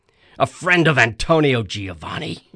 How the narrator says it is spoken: he snorted and continued to laugh

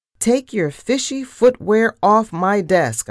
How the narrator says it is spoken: I cried

